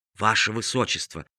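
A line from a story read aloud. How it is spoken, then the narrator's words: Whisper in the ear. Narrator (Russian): прошептал на ухо принцу старший камергер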